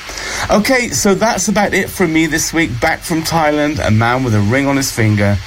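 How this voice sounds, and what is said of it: Voice with a cold. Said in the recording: “a bit of a cold too, so I'm sorry if you can hear that in my voice.”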